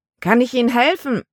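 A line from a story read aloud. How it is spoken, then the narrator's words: Called down from above. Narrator (German): Von der Reling aus rief er herunter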